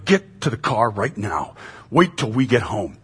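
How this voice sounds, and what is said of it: Stern scolding dad voice. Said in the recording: “a tone of voice that I would take on ... when she hears that voice, it just kind of sends shivers ... my dad voice”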